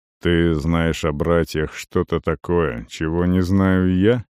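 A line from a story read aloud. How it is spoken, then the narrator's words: Gloomy question. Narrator (Russian): мрачно спросил Арон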